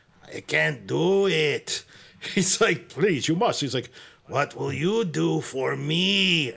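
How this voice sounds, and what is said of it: Strange childlike, somewhat aggressive voice. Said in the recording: “a pretty good impression, but you're making him a little more aggressive than he is. It's a very strange, childlike tone.”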